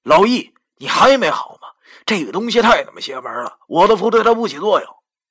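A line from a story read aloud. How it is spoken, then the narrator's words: Loud shout. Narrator (Chinese): 我边大声喊道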